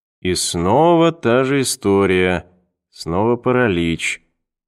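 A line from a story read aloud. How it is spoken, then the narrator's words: Thoughtful drawl. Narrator (Russian): задумчиво протянул Перри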